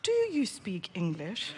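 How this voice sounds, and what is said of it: Thick British accent. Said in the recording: “I put on the thickest British accent.”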